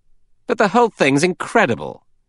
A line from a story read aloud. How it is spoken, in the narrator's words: Sir Thomas Legge, Assistant Commissioner at Scotland Yard, said irritably